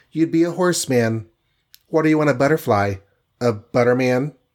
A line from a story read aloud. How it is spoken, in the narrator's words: she said in a tinkling voice